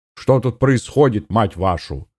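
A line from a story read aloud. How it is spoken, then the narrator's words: Loud bark. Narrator (Russian): рявкнул Гуров на весь коридор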